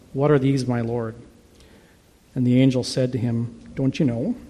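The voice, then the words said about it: Put-on Scandinavian accent. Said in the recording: “At least that's the way I read it. So, a very Scandahoovian accent”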